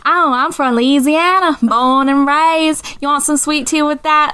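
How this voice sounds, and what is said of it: Put-on Southern Belle Louisiana accent. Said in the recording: “a fairly passing Southern accent ... talking in my Louisiana accent, my Southern Belle, right? I'm just talking like this.”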